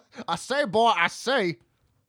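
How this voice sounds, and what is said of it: Southern cartoon rooster impression. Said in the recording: “you also in the South? ... Foghorn, Foghorn ... Leghorn. Leghorn.”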